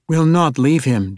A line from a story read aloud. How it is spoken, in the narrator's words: Dahlia shouted down at her